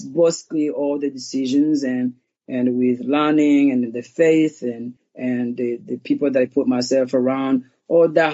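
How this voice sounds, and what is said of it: Rwandan accent. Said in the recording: “being, you know, Rwandan, having an accent”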